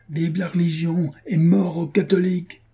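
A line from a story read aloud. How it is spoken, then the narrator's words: Shouting. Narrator (French): cria-t-il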